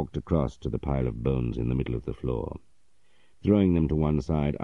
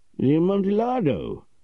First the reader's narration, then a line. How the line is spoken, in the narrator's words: cried my friend in his confusion